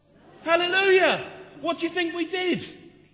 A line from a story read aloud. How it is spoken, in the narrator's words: everybody in the church would shout